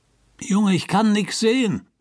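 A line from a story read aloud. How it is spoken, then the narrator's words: Called out. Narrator (German): rief Sink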